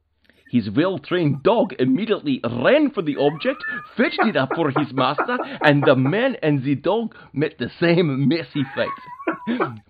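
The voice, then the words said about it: Put-on Ukrainian accent. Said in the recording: “your accent telling it... That's my best Ukrainian accent I have... that entire thing was done out of one side of your mouth”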